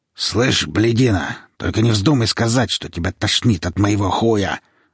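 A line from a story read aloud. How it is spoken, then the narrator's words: Kidnapper growling. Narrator (Russian): зарычал похититель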